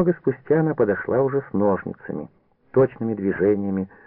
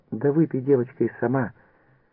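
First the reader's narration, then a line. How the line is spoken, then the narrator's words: Tender. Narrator (Russian): прибавила ласково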